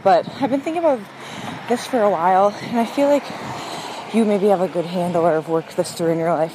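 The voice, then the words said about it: Slightly out of breath. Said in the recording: “I leave this voice note after my run. Sorry if I'm a little bit out of breath,”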